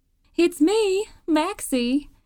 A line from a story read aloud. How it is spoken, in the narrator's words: she called out